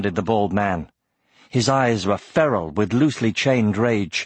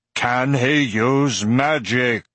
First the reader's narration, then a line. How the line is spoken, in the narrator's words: roared Oric, his deep voice echoing in the room